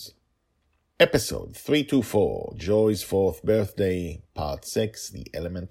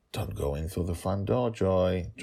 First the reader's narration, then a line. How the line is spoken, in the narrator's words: Dragonfather whispered to himself